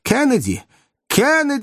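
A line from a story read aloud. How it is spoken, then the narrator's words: Shout. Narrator (Russian): закричал доктор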